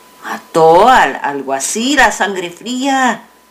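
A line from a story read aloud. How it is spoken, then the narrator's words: Plain. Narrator (Spanish): dijo otro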